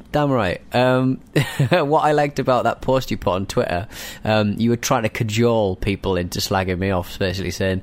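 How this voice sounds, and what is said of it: Friendly-sounding accent, not threatening. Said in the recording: “Your accent is far too friendly to ... ever sound threatening.”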